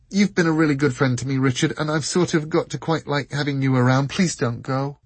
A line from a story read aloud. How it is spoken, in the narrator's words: all in a rush, blurted